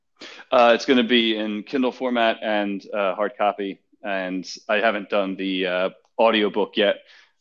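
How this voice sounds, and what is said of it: Harsh Philadelphia accent. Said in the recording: “my harsh Philly accent”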